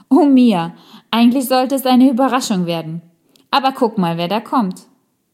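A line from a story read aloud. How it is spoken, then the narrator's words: Loud laughing speech. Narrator (German): lachte Rosalie ganz laut und sagte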